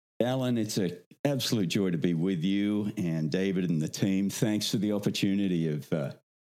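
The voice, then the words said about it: Australian accent. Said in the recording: “you're obviously not from Iowa... your accent... I come from down south... originally Australia”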